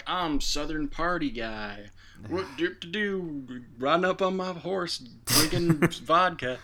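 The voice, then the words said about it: Mock Southern accent. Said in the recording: “speaks with a Southern accent ... a stupid, quirky accent”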